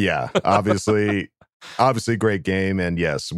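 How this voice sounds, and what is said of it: Usual voice. Nothing is said of it.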